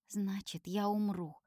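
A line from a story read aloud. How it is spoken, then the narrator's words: Quiet reply. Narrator (Russian): так же тихо отвечаю я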